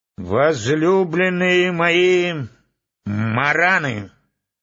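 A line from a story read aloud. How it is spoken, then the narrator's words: Hollow, powerful voice. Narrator (Russian): начал он глухим и сильным голосом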